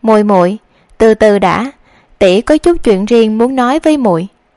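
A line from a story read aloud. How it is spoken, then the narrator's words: Gentle, smiling, soft. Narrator (Vietnamese): ả vẫn treo lên gương mặt tươi cười dịu dàng, ôm nhu nói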